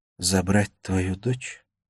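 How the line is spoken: Quiet question. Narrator (Russian): тихо спросила Лея

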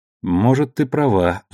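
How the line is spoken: Sighing. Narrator (Russian): вздохнул Холден

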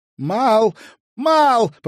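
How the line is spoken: Shouted from afar. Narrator (Russian): прокричала со своего места Элис

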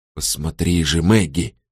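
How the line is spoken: Whispered. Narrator (Russian): шептал он ей тогда

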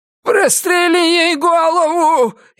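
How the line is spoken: Hysterical shout. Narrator (Russian): истерично крикнул Дон

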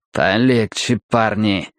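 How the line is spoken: Raspy, gravelly voice. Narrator (Russian): своим песочным голосом проскрипел Бальтазар Стемпер

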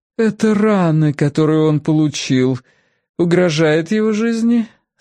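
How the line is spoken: Feigned impassive question. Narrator (Russian): спросила матушка Дьер притворно бесстрастным голосом

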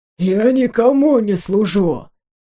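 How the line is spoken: Low muffled rumble. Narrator (Russian): глухо пророкотал Уйма

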